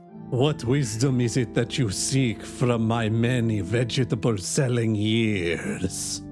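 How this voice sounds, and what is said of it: Put-on accent, hard to understand. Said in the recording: “sometimes your accent can be a little, a little, a little ... if my accent is hard to understand”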